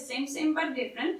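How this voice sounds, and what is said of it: Put-on Indian accent. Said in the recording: “That's as far as my Indian accent will go today.”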